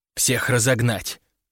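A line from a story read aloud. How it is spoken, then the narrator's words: Barking snap. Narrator (Russian): рявкнула Агнесса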